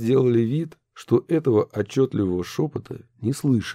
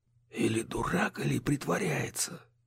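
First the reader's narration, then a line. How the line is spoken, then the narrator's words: Whispered to himself. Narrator (Russian): прошептал себе под нос Минц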